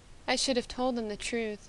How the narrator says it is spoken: murmured softly

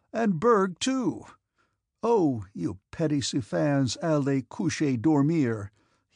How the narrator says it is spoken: he exclaimed, imitating his Russian nurse's French

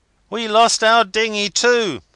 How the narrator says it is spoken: they cried

